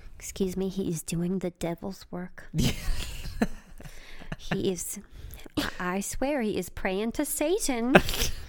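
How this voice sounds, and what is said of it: Put-on complaining neighbor accent. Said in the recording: “That's pretty good. That's pretty good little accent there.”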